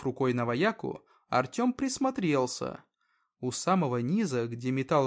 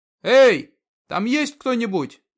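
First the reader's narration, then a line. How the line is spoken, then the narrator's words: Shout. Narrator (Russian): Артем закричал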